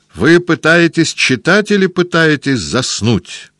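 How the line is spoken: Doctor yelling. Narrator (Russian): заорал доктор

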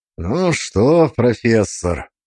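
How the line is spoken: Hoarse, tired voice. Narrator (Russian): Мой голос в тишине прозвучал хрипло и устало

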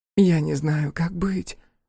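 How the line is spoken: Sigh. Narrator (Russian): вздохнула Торью

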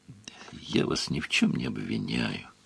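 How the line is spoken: Tired. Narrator (Russian): устало сказал Сварог

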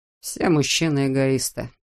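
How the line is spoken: Dry remark. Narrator (Russian): сухо заметил Жиль

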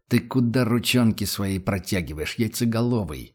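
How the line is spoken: Officer growling. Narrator (Russian): прорычал офицер

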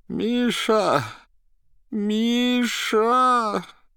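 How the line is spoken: Moaning call for help. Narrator (Russian): Пытался позвать на помощь Берлиоза, дважды простонал

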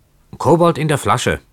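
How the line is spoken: Calling out. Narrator (German): rief Keawe

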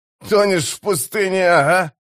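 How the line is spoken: Snort, then laughter. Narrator (Russian): хрюкнул другой, затем рассмеялся

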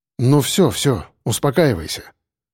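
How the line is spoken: Soft, soothing. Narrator (Russian): проговорил мягко

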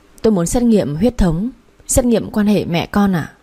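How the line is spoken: Trembling. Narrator (Vietnamese): Tôi run run bảo bác sĩ

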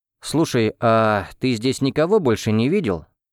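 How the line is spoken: Plain. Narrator (Russian): спросил я

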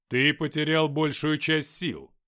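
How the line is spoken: Plain. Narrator (Russian): сказал Игнат

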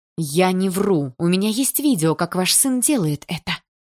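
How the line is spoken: Quiet, tenderness turning furious. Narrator (Russian): Тихо сказала Полина, и нежность сменилась яростью

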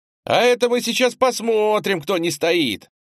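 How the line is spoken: Young man shouting. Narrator (Russian): выкрикнул самый высокий и крепкий из четверки парней

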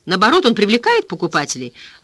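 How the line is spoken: Exclaiming. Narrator (Russian): воскликнул человек на руках

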